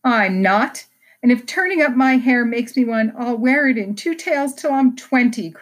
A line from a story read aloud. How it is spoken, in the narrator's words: cried Jo